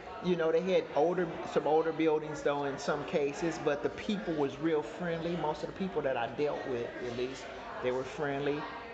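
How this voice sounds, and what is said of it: Detroit accent. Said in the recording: “they catch that Detroit accent”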